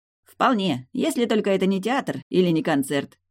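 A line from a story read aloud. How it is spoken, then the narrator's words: Snorting young man. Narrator (Russian): хмыкнул парень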